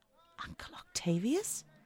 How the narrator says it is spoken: she whispered

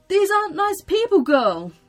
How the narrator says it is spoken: cried Mr

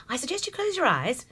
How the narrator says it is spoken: she said in a very sprightly tone

